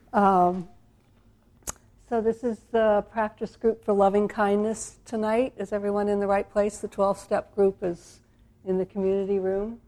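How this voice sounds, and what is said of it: Speaking with a slight cold. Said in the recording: “I have a little bit of a cold,”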